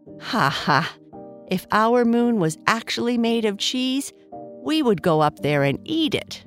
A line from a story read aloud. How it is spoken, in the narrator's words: Bernice said with a laugh